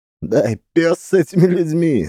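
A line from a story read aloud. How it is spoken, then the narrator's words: Laughing. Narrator (Russian): засмеялся Макс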